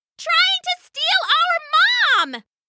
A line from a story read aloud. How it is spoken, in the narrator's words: it cried